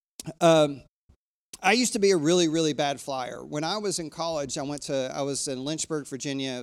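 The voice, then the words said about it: Hoarse, froggy throat. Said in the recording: “I've got a frog in my throat, and it will not leave me. So if I hack into the microphone”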